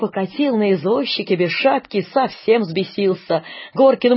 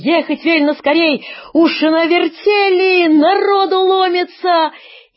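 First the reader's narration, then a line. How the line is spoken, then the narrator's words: Breathless shout. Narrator (Russian): Прибежал, высуня язык, Андрюшка, крикнул Горкину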